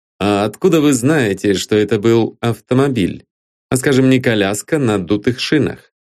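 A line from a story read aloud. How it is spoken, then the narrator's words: Plain. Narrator (Russian): спросил Коппе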